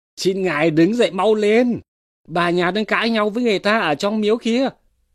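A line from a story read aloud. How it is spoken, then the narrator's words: Servant child crying out. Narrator (Vietnamese): đứa con hầu kêu lên rằng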